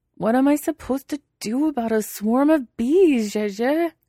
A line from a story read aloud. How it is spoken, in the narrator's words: He wails, but not too loud, in case the bees can hear him